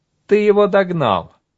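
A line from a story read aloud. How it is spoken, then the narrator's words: Exclaimed. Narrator (Russian): воскликнул Толька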